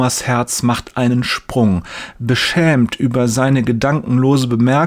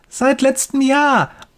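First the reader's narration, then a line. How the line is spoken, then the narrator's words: Boy's enthusiastic call. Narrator (German): ruft der Junge begeistert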